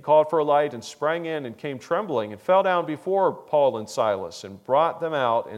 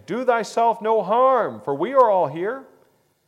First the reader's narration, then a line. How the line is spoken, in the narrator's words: Paul cried out with a loud voice, saying